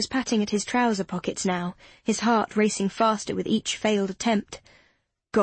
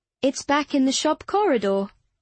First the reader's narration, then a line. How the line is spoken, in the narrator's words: she said cheerfully